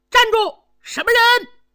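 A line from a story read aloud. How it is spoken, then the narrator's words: Shouting while chasing. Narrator (Chinese): 边喊边追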